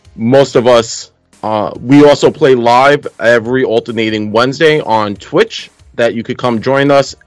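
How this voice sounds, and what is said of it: Brooklyn New York accent. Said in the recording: “We're from New York, so if I have a terrible accent ... that's what happens when you grow up in Brooklyn.”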